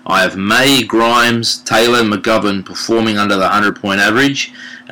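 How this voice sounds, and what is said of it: Slight Adelaide Australian twang. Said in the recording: “There's just that slight Adelaide twang. Really lovely.”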